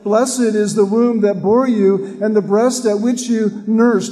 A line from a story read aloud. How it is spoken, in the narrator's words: a lady in the crowd shouts out